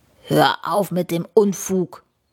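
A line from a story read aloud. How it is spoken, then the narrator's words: Dragon growling. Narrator (German): knurrt der Drachen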